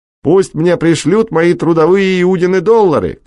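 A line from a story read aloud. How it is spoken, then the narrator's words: Shouting over whistles and applause. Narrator (Russian): кричала Фрумкина под свист и аплодисменты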